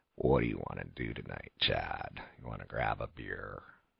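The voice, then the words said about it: Low, fluttering vocal fry. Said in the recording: “vocal fry, which it sounds like this. You go, you get really low. ... So you have like this like flutter in your voice?”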